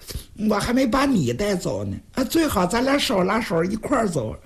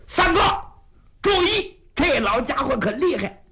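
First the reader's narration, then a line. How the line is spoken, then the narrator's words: Urgent worried shout. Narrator (Chinese): 出于这种担心，云瑞就在旁边紧喊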